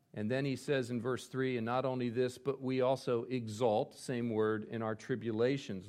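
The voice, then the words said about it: East Coast American accent. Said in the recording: “you're not hearing the difference between my U and my A there because of my East Coast accent”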